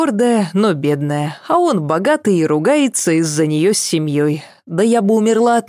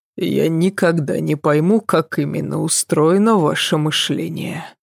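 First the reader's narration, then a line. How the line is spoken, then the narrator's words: Sighed. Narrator (Russian): вздохнул Адам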